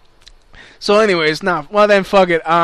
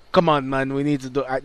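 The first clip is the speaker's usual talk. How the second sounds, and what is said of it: Put-on Black British accent. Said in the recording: “that's my best black British accent.”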